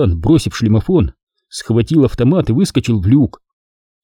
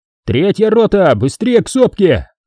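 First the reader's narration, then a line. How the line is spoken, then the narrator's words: Shout. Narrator (Russian): крикнул ротный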